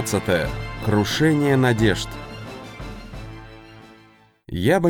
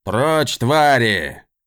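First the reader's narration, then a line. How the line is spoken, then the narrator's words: Roar. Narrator (Russian): взревел капитан Лонкар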